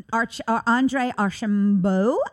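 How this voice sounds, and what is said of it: Name said in funky accent. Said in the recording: “I had to say that with a little funky accent.”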